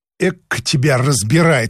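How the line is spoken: Snorting retort. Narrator (Russian): фыркнула Анна

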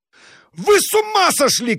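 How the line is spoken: Shouting. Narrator (Russian): крикнул Абогин

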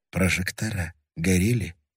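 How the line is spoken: Quiet. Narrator (Russian): тихо сказал Львин

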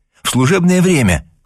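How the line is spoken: Exclaiming. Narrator (Russian): воскликнула она

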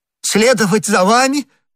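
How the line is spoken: Exclamation. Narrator (Russian): воскликнул Бонасье

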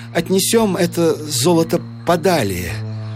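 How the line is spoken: Trembling voice. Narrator (Russian): сказал Гукер дрожавшим голосом

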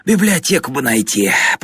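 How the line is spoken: Groaning. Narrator (Russian): простонал Фокин

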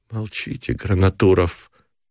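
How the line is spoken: Weary request. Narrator (Russian): устало попросила Галя

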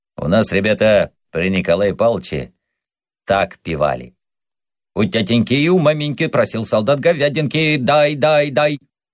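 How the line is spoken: Persistent old man. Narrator (Russian): старик не унимался

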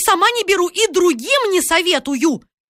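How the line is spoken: Ominous shouting. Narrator (Russian): Она кричала так зловеще

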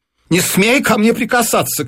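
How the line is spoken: Wife shouting. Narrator (Russian): крикнула жена

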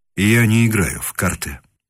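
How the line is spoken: Dry, curt. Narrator (Russian): по-прежнему сухо отвечал гость

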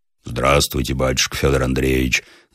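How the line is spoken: Roaring deep bass. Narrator (Russian): заревел он толстым басом

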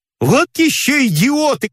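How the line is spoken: Shouting from above. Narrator (Russian): кричали сверху

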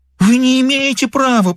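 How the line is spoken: Moaning. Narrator (Russian): простонала она

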